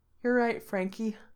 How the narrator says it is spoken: Gerard says with a yawn

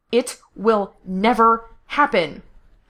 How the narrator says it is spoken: Gerard snapped

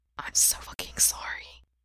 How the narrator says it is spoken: Gerard whispers

